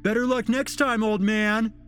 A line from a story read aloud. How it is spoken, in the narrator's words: They laughed to themselves mockingly